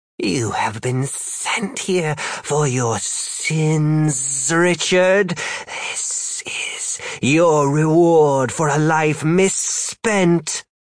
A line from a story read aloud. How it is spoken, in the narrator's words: The other demon cackled and said